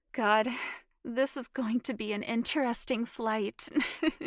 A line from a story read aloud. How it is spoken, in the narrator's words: she said, laughing